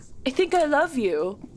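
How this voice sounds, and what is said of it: Imitates another person's voice. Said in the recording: “That's my Keira Knightley impression.”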